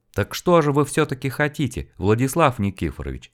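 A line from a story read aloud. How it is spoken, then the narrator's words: Gentle reminder. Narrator (Russian): мягко напомнил ему Дед Мороз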